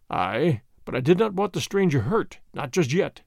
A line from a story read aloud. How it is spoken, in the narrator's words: murmured Chauvelin, savagely